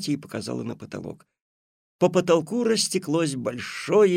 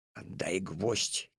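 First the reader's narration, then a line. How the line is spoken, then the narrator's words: Quiet. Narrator (Russian): тихо сказал Алешка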